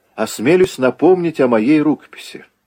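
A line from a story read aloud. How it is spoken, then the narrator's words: Cheerful yet nervous. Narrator (Russian): весело ответил Загоскин и с заметным волнением сказал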